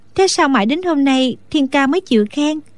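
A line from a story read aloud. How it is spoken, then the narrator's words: Smiling. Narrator (Vietnamese): Đinh Đan mỉm cười nói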